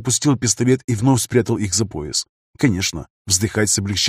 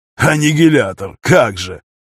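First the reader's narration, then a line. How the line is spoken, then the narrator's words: Disdainful snort. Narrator (Russian): уничижительно фыркнул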